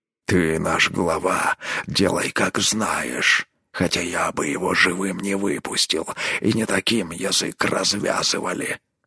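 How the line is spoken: Grumbled. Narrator (Russian): буркнул Рорк

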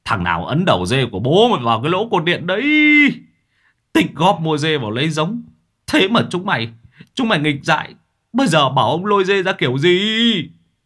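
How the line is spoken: Old man howling. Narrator (Vietnamese): Lão gào lên

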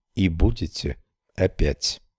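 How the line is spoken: Calm. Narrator (Russian): Мэй сказала спокойно

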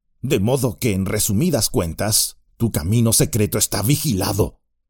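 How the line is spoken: Growling. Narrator (Spanish): gruñó

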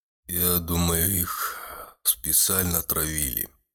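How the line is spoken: Sad. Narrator (Russian): грустно сказал Гудо

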